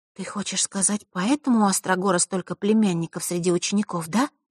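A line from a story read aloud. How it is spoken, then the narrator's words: Quiet, serious. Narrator (Russian): тихо произнесла Василиса, мигом уловив серьезность темы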